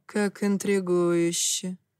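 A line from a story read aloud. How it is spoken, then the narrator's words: Thoughtful. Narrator (Russian): задумчиво произнес он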